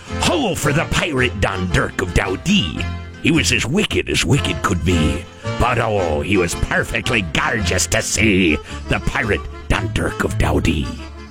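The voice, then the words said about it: Put-on pirate accent. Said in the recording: “That's the pirate accent”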